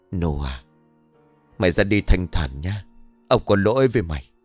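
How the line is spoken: Sighing whisper. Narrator (Vietnamese): Kỳ thở dài thì thầm bảo

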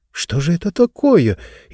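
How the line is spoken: Frightened whisper. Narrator (Russian): испуганно прошептала и Кейша

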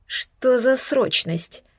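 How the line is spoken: Sleepy mumble while stretching. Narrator (Russian): пробормотала, потягиваясь

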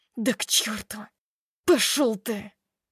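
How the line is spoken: Added through gritted teeth. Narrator (Russian): добавляет сквозь зубы

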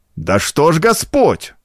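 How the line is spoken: Exclaiming. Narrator (Russian): воскликнул Минаре Левро

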